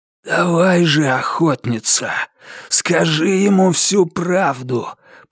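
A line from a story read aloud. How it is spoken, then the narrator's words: Hoarse rasp. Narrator (Russian): прохрипел маркиз Карабас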